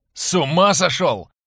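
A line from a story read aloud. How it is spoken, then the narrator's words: Shouting, forgetting pain. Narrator (Russian): закричал Шабан, забыв про боль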